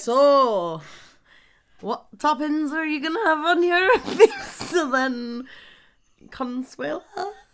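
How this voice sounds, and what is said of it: Weird put-on accent. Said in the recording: “you have a really weird accent for somebody from Slough.”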